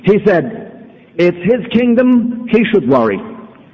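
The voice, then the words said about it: Put-on Jewish accent. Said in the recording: “with a Jewish accent.”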